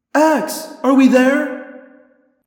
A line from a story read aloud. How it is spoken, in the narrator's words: I cried